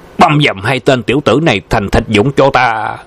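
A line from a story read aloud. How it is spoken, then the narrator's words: Angry roar. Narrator (Vietnamese): tức giận gầm lên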